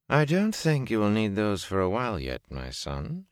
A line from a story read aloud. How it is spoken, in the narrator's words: she said dryly